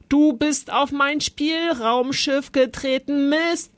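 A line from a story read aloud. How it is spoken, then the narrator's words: Bellowed. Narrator (German): brüllte Zolli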